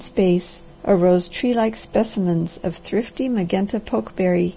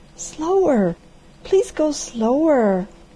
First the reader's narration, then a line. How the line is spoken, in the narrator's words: at every step the girl cried